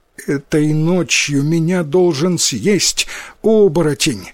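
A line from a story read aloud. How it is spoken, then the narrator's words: Girl sobbing. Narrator (Russian): сквозь рыдание ответила девочка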